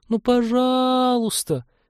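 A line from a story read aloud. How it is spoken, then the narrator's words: Pleading. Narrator (Russian): взмолилась лаборантка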